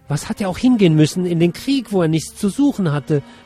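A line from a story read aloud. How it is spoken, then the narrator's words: Excited gulping shout. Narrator (German): rief aufgeregt schluckend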